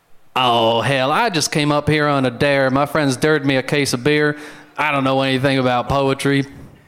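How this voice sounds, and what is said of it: Long-haul trucker character voice. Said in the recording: “my impression of a long-haul trucker at a poetry slam”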